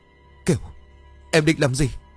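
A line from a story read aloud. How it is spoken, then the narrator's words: Frightened stammer. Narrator (Vietnamese): Nghĩa bật ra đằng sau vì sợ, anh lắp bắp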